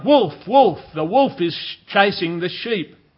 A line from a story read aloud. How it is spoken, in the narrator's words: He cried out